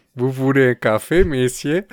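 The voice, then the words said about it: Put-on Belgian French accent. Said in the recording (French): “Fais-moi un accent belge.”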